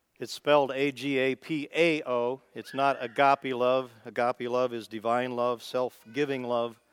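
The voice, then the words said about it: American Midwest accent. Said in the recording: “with my Midwest accent, I'll probably pronounce it wrong”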